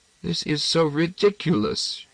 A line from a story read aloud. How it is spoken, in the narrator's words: she gasped